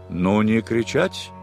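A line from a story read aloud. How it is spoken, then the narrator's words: Stern. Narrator (Russian): строго сказал адмирал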